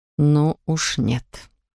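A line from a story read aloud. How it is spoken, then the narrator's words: Strained, nauseated forcing out. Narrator (Russian): Охваченный подступившей горло тошнотой, Матье выдавил из себя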